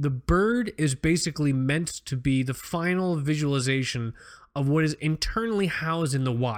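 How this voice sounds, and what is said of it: Usual voice. Nothing is said of it.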